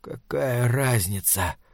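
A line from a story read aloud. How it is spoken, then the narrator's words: Hoarse wheeze. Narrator (Russian): прохрипел он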